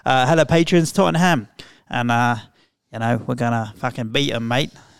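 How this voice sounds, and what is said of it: Imitates another person's Australian voice. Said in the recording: “I'm from Australia, mate. That's my Ange Postecoglou impression.”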